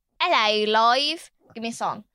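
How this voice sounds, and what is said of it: Put-on British accent. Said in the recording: “That's me getting my British accent.”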